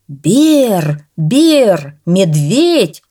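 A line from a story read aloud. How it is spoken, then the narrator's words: Shouting. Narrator (Russian): закричал кто-то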